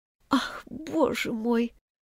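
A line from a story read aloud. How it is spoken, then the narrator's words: Sad. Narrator (Russian): грустно промолвила Алиса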